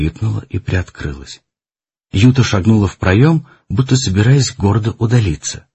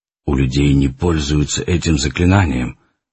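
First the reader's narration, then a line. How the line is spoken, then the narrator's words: Muffled voice from behind. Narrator (Russian): глухо сказал за ее спиной Арман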